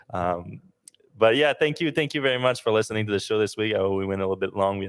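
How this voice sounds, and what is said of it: Non-native English accent. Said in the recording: “I have an accent ... It is my second language”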